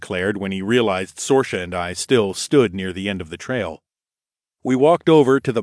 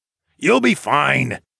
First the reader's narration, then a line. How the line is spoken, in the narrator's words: called out to the blonde mage